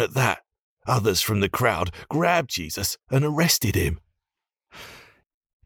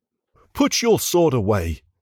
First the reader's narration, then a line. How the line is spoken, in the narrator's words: Jesus shouted